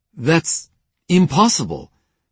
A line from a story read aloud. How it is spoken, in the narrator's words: Panos stammered